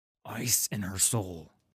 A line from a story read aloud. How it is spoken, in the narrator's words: he hissed